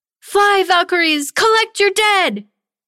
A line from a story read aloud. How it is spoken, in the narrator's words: Tanya cried out